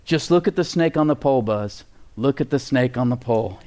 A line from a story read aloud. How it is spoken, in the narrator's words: he says